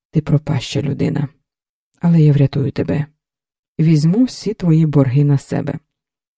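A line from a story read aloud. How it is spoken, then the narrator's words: Calm, suppressed anger. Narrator (Ukrainian): Стримуючи у собі злість, сказала спокійно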